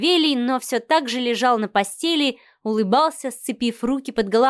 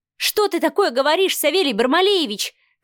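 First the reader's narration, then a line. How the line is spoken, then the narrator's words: Angry shouting. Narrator (Russian): кричала Марианна, гневно сверкая глазами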